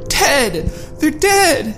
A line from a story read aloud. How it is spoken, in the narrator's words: she cried out